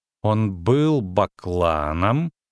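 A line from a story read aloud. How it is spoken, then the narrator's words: Slow speech. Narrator (Russian): медленно проговорила Цири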